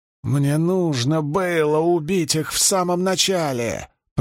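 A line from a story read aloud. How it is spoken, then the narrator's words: Wheezing. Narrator (Russian): просипел Льюстерин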